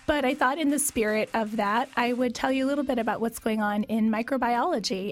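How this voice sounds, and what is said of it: Sick-sounding voice. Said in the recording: “There's a lot of viruses and pathogens going around, including in myself, as you can hear from my voice today.”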